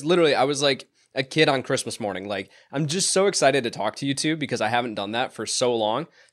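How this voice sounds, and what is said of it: Wavering, sick-sounding voice. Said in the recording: “My voice is still a little wavering... I've been hacking all morning”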